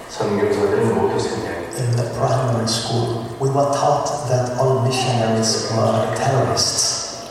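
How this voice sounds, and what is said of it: Chinese accent. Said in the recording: “he has a Chinese accent, so listen carefully”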